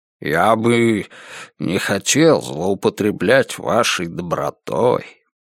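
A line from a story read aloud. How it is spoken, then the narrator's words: Muttered. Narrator (Russian): Пробормотал он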